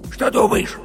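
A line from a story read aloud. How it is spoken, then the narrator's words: Hot whisper, bear cub. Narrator (Russian): жарким шепотом спросил медвежонок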